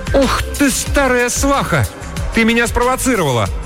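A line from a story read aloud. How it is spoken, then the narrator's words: Laughing. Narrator (Russian): Мейбл засмеялась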